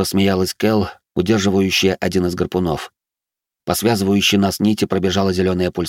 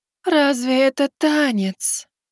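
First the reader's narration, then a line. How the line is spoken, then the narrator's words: Disappointed drawl. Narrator (Russian): Разочарованно протянула еще одна Кэл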